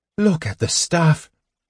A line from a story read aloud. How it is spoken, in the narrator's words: Gold Moon gasped